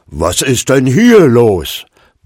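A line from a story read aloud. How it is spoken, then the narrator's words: Sudden roar. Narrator (German): brüllte plötzlich Gustav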